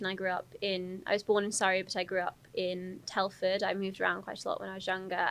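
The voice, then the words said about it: Upper-class sounding English accent. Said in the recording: “it seems very at odds with my accent ... I often get assumptions that I must be privileged upper class ... because of the way I speak”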